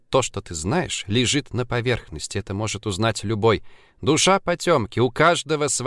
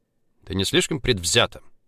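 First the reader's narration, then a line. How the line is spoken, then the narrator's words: Sharp curt retort. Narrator (Russian): резко бросил Влад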